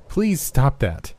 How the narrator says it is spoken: Ruby demanded, this time in a forceful tone sharpened by exhaustion

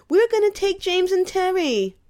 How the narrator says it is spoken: Ralphie whined

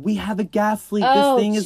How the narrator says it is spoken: people are screaming

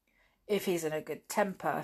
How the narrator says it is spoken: said George

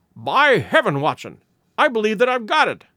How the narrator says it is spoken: he cried

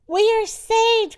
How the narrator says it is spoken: cried Mr

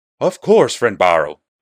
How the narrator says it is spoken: he gasped

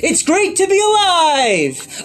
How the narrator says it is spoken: an inner enthusiastic voice shouting

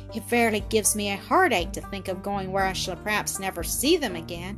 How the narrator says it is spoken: she heaved a sigh which seemed to come from the bottom of her heart

